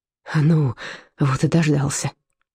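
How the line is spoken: Exhaling. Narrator (Russian): выдохнул Карлсруин

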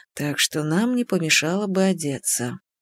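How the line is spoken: Barely audible whisper. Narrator (Russian): добавил он едва слышным шепотом

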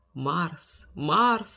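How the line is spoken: Giant whispering at night. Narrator (Russian): шептал исполин в тишине ночи

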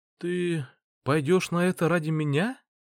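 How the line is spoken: Timid question. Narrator (Russian): Робко интересуется Ева

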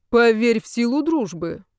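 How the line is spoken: Grim advice. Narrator (Russian): мрачно посоветовал Олег

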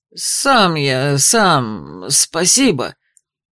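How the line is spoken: Strained hoarse rasp. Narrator (Russian): прохрипел Дюк, упираясь ногами в толстый вязаный коврик

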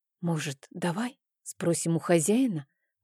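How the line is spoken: Whispered. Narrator (Russian): прошептала я

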